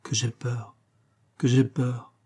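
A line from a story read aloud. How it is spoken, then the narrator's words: Faint distant murmur. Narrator (French): seules ses lèvres murmurèrent, comme de très loin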